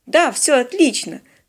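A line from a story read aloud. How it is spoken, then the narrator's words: Enthusiastic exclamation. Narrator (Russian): с уже слегка раздражающим, но вполне понятным энтузиазмом воскликнул новый навигатор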